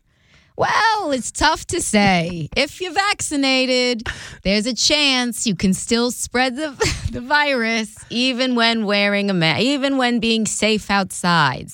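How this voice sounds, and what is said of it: Dr. Fauci impression, New York accent. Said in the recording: “do Fauci ... You're really good at that New York little accent”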